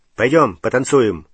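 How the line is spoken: Sharp. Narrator (Russian): резко предложил он

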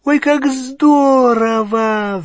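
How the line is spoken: Excited squeal. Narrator (Russian): взвизгнула Гермиона

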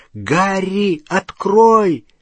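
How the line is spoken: Shouting. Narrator (Russian): он кричал

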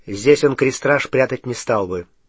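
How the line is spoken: Plain. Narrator (Russian): ответил Гарри

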